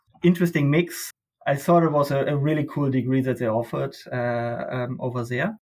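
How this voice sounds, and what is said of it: German accent. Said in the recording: “you can probably tell by my accent, I grew up in Germany”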